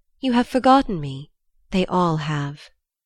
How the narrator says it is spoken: she said wistfully

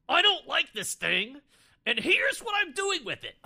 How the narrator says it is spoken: screaming

